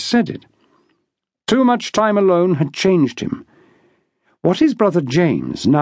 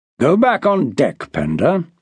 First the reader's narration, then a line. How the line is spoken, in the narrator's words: Harry replied calmly